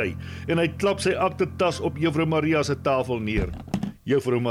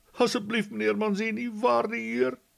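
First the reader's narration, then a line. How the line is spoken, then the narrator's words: Sobbing. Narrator (Afrikaans): snik sy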